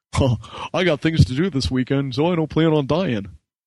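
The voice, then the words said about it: Impersonation of Trace, hokey delivery. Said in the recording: “a great impersonation... I've been practicing him all day”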